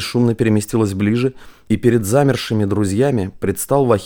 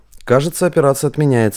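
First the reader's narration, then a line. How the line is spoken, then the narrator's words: Snort. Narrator (Russian): хмыкнул Василий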